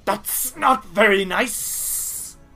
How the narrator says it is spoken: she shrieks and says

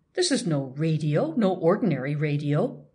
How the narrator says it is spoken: Urban exclaimed

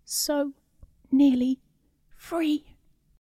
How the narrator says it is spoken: the subject weakly choked out

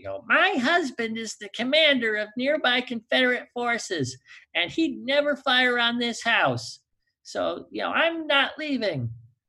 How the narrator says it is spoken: I can just see her screaming and yelling at him

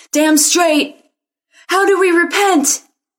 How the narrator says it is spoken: Some of the crowd hollered back

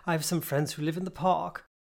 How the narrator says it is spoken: the professor replied cheerfully

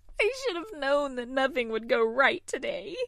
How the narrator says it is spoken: she sobbed

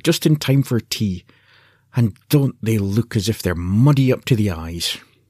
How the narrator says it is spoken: cried

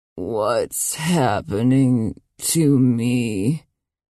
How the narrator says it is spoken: croaked

